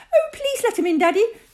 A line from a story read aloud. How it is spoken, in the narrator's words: cried Susie, the older of the two girls